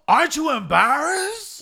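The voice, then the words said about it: Imitates another person's voice. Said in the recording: “the impression is yours ... You do a way better impression than I do ... Oh, yeah, that is pretty good.”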